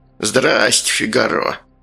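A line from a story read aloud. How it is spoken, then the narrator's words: Creaky, grating voice. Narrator (Russian): проскрипел Сальдо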